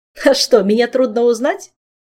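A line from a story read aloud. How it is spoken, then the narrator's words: Laughing, playful. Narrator (Russian): хохотнул неисправимый Ален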